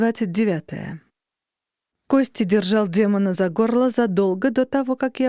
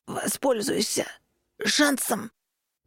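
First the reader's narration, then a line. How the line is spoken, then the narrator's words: Hoarse rasp. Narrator (Russian): прохрипел он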